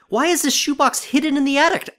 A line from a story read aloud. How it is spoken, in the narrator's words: I exclaimed out loud